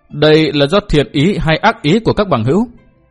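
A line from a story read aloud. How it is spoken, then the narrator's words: Loud laughing question. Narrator (Vietnamese): Liễu Tổn Trung ha hả cười lớn hỏi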